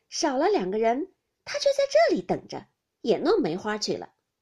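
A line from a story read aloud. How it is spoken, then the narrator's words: Group laughing. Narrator (Chinese): 众人都笑道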